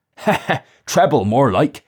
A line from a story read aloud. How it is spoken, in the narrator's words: the man laughed